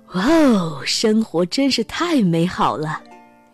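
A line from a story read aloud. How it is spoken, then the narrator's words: Delighted exclamation. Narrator (Chinese): 幸运先生感叹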